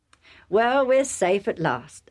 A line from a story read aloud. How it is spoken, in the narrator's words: Isaac said